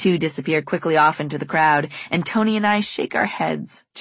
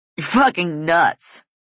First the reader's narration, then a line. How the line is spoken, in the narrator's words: Caleb laughs